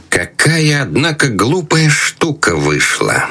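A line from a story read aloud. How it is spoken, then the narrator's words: Displeased, through clenched teeth. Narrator (Russian): Крестный процедил сквозь зубы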